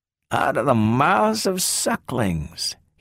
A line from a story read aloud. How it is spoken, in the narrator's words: he said in a small, strange voice